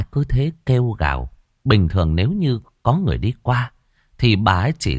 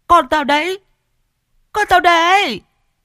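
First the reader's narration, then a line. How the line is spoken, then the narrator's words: Shrill woman's screaming. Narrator (Vietnamese): tiếng vợ mình gào choe choé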